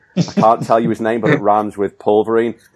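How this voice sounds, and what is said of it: Poor put-on Australian accent. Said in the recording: “It slowly went from your normal accent into a really dodgy Australian accent ... that was the shittest Oscar”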